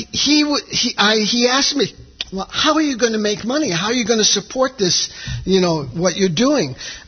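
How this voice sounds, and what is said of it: New York accent. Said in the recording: “we're from New York, if you couldn't tell from my accent”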